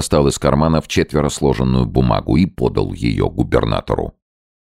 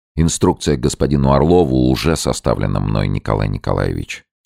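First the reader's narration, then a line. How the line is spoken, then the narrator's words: Plain. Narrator (Russian): ответил капитан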